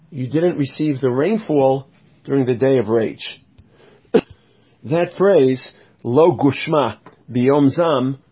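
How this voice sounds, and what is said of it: Congested, strained voice. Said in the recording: “I'm still struggling with a sinus infection, so my voice is a little challenged.”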